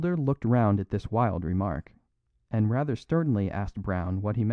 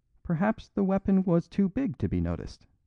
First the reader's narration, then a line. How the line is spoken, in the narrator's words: said the priest, with an odd little giggle